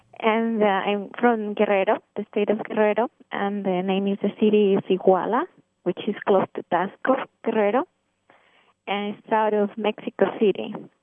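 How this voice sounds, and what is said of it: Mexican accent in English. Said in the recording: “I grew up in Mexico and Mexican. You can pick up the accent now.”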